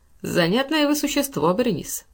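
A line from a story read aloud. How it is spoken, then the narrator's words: Casual tone. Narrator (Russian): продолжал непринужденным тоном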